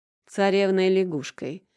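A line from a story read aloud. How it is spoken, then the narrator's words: Snort. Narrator (Russian): хмыкнула Лизуня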